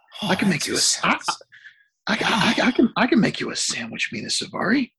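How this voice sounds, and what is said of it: Breathy imitation of another person's voice. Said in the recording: “does a good Chris Klein impersonation ... The voice, ... the breathiness of the voice”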